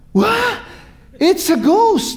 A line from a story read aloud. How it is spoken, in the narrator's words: They cried out in fear, a reaction of their fear, of their terror